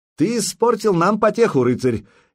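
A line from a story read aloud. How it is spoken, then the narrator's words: Cheerful shout. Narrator (Russian): весело крикнул ему Болеслав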